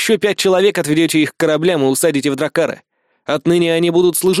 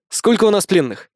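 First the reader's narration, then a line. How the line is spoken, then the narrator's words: Brisk, untired voice. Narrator (Russian): я задал вопрос бодрым голосом, без тени усталости в нем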